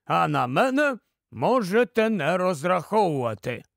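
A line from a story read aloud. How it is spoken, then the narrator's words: Calm. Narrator (Ukrainian): спокійно сказав Нікабрик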